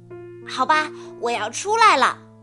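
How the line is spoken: Loud announcement. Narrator (Chinese): 宝宝大声的宣布

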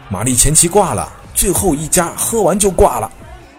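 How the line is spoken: Excited shouting. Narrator (Chinese): 朋友兴奋地喊道

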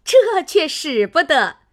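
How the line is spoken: Crowd laughing. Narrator (Chinese): 众人都笑道

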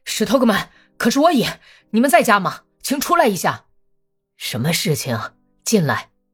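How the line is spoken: Breathless shout. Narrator (Chinese): 他气喘吁吁的大声喊

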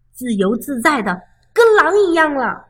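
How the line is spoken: Loud shout. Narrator (Chinese): 他大叫道

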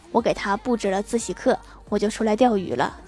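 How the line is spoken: Flat, calm. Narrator (Chinese): 郭大侠淡淡的说

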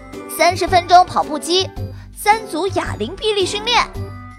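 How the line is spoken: Loud reading aloud. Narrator (Chinese): 哥哥 高声念道

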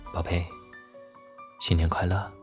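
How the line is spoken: Soft whisper in ear. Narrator (Chinese): 徐佳年 低声在他耳边说道

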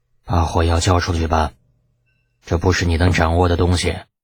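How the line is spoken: Calm, flat. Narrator (Chinese): 老头子竟是没有发火，只是淡淡的说了一句

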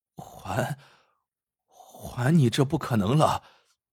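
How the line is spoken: Trembling voice. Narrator (Chinese): 王大夫颤声说

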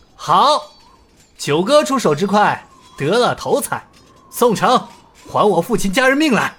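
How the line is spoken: Loud praise. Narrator (Chinese): 尹建平大声赞道

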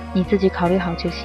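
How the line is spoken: Calm, indifferent. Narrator (Chinese): 吴丽君并没有流露出担心，只淡淡的说

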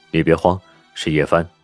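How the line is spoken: Low voice. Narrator (Chinese): 宋时清低声道

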